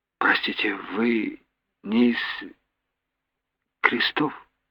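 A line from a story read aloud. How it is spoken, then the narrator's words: Weak voice. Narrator (Russian): слабым голосом проговорила мама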